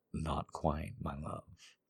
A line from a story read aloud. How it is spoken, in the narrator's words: he murmured